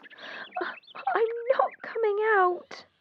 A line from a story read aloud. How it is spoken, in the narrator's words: she cried